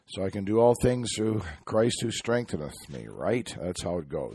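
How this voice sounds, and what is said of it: Sick-sounding voice. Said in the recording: “Apologize for my voice. ... I caught something.”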